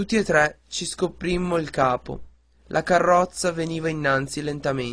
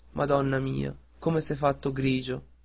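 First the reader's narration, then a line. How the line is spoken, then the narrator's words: Soft. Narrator (Italian): Poi disse piano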